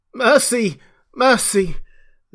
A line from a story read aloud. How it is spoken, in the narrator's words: that died down swiftly to a sound like choking